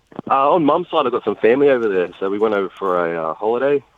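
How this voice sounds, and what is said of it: Mixed in-between accent. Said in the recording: “I may have a bit of an accent, but it's kind of in between.”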